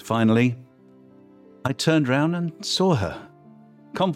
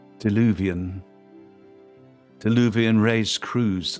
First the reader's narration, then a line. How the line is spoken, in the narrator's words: said